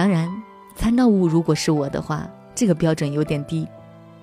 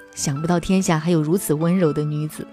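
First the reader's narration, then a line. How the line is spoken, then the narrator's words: Admiring sigh. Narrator (Chinese): 我老公每次都感叹说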